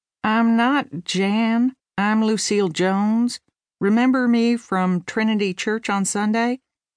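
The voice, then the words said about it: Texas drawl. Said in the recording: “speaking in a Texas drawl”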